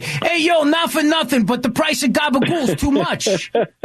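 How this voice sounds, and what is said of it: Put-on Italian-American accent. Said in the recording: “I'm waiting for her to do an Italian accent”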